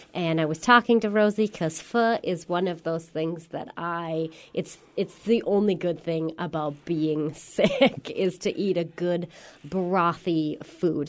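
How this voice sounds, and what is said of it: Slightly congested, hoarse voice. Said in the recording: “I'm not sure if you can tell from my voice, but I am just getting over a little bit of a cold.”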